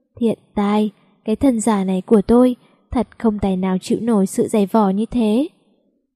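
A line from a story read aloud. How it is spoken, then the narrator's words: Weary sigh. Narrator (Vietnamese): Tôi thở dài một hơi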